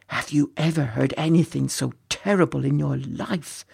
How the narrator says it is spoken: whispered a third man his face pale with shock

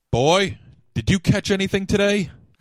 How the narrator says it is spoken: his father shouted

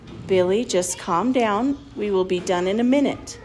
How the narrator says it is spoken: Dad was quietly saying

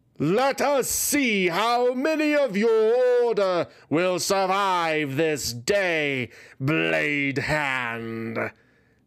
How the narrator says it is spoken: Messiox wickedly roared

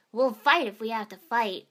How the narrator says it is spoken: Naruto barked

